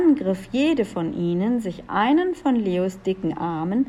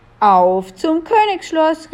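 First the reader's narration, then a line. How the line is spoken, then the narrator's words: Called out. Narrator (German): rief Jakobus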